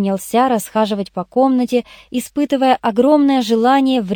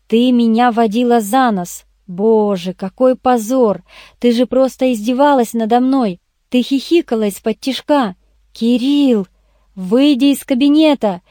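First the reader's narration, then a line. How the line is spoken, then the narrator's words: Angry barking. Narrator (Russian): рявкнул я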